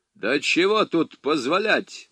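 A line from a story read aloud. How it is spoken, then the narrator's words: Official's rude objection. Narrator (Russian): возразил грубо чиновник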